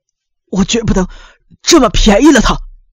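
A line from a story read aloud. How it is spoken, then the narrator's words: Trembling with anger. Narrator (Chinese): 光田愤怒的浑身直打颤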